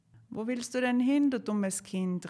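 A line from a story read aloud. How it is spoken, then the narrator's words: Call. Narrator (German): rief sie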